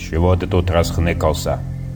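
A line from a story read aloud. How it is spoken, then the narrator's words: Menacing question. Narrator (Russian): вопрошает грозно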